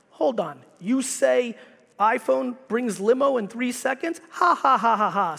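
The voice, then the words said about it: Heavy put-on Russian accent. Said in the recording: “They laugh at me with a heavy Russian accent”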